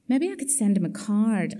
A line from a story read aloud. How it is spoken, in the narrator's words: I suggested feebly